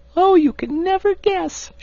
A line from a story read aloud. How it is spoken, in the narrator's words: she cried